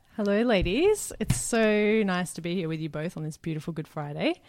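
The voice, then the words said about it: Australian accent. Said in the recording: “originally from Australia, which I'm sure you've gathered from the gorgeous accent she has”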